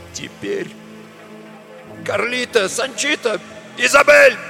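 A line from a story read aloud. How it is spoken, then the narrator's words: Barking shout. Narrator (Russian): гаркнул он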